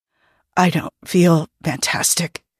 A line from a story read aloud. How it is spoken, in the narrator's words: Jim whispered unhappily